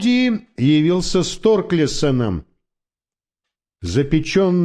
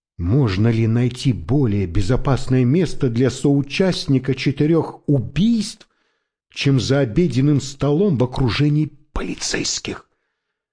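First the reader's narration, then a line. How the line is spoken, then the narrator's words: Whisper. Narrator (Russian): шепнул Мелиссе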